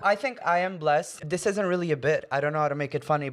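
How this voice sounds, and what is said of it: International, American-sounding English accent. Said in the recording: “you sound very, very international. That's what I call like a Friends accent, people learning English by watching Friends”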